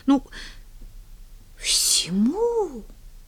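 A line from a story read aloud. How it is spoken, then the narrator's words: Stunned incredulous mutter. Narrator (Russian): Так же ошеломленно и недоверчиво пробормотала Поллианна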